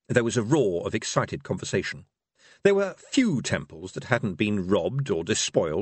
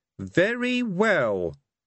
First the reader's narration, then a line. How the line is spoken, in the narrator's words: said one of the objectors haughtily